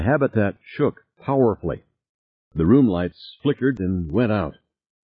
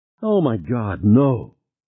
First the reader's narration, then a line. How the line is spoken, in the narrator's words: Harry moaned